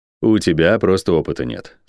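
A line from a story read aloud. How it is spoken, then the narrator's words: Calm remark. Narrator (Russian): спокойно заметил Орейн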